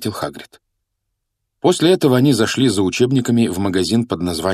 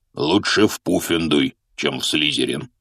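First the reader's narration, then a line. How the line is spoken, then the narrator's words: Even gloomier reply. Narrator (Russian): еще более мрачно ответил Хагрид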